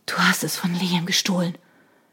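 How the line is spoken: Breathless. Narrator (German): endete Shona atemlos

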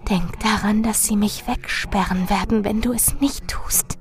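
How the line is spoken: Urgent whisper. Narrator (German): Marilyn flüsterte eindringlich

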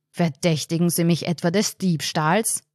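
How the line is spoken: Thundering, very loud. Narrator (German): donnerte der Bestatter, und Martin meinte, einen Sargdeckel unter der Lautstärke erzittern gesehen zu haben

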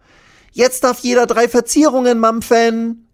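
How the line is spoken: Calling out. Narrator (German): ruft sie

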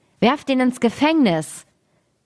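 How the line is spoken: Angry royal shout. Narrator (German): der junge König wurde zornig darüber und rief

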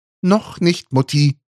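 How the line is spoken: Calling out. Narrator (German): rief Jonas

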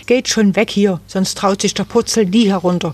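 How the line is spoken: Called angrily. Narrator (German): rief Susi ärgerlich

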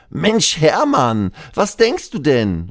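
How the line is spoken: Called out. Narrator (German): ruft

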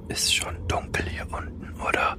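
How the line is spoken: Discreet whisper in ear. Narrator (German): flüsterte ich Conny möglichst unauffällig ins Ohr

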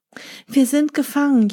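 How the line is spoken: Wailing. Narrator (German): jammerten sie

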